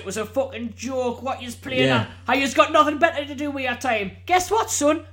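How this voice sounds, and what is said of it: Put-on northern English accent. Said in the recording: “In a northern accent as well. If you're in your best northern accent”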